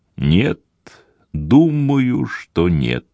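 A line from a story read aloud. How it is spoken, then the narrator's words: Slow, thoughtful. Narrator (Russian): медленно проговорил Деронда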